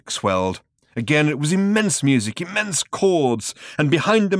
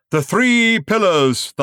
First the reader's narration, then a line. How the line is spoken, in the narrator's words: thundered the man